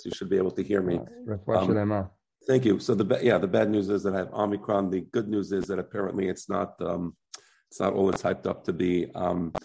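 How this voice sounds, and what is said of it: Hoarse voice. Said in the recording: “my voice is a little hoarse.”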